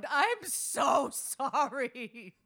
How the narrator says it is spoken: dissolved, composure gone, and bellowed

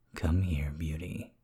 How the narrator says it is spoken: whispered

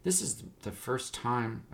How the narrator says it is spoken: Adon muttered

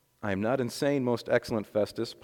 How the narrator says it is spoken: Paul replied

